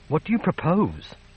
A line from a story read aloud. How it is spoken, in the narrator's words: she pleaded